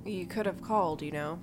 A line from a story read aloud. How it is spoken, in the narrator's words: She let out the sigh and said